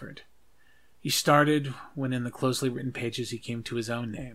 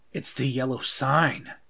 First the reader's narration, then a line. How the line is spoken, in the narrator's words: said angrily